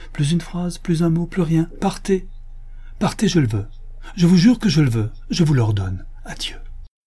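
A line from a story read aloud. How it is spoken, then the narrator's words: Curt, resolute, imperious cry. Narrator (French): s'écria-t-elle d'une voix brève, résolue, impérieuse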